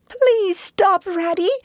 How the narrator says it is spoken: pleaded the poor mole in anguish of heart

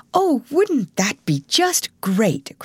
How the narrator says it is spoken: cried Alice

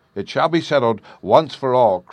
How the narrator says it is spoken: cried Brunhild, now boiling over with rage

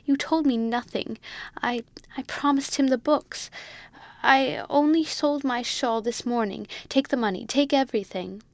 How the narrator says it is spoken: cried poor Amelia in reply

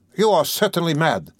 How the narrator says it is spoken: cried Raskolnikov, not so much angered as astonished

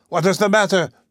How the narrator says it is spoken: shouted my uncle

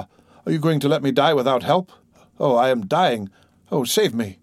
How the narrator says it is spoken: cried Beauvoir

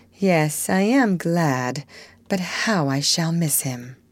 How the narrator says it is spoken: her face fell, adding, with an involuntary sigh

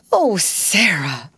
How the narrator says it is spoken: almost whimpered Miss Amelia

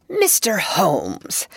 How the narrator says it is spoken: said in an agitated voice

